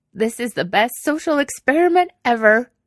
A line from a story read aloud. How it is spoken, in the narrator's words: she said, sniffling loudly into her sleeve